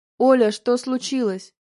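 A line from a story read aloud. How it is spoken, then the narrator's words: Man barking. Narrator (Russian): рявкнул мужчина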